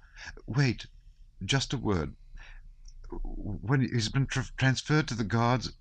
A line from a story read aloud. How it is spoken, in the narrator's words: she faltered